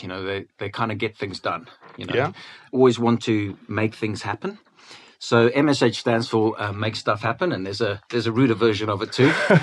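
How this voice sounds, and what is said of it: South African accent. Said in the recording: “you can tell from my accent that I wasn't born in the UK. I was born in Cape Town.”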